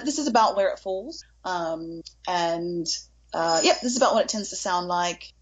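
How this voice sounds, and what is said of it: Put-on London English accent. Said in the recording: “English accent ... I'm a bit out of practice ... so shooting for a London accent. ... Yes ... you could pass for being in London”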